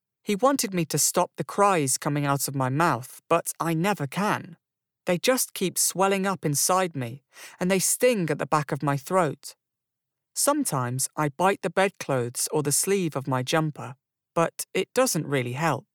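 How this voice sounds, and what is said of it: Young-sounding British-accented voice. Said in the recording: “it's British ... a nice British accent ... He sounds so young”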